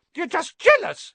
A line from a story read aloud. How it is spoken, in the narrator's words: piped up